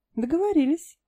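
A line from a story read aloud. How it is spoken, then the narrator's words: Giggling, shivering with cold. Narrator (Russian): хихикая и содрогаясь от холода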